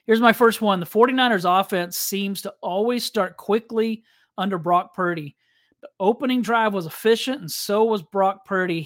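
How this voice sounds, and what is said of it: Strained, fading voice. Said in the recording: “I'm not feeling great today, and I'm losing my voice, I feel like.”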